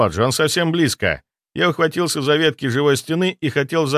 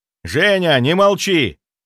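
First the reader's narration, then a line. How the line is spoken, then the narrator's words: Shout. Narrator (Russian): выкрикнул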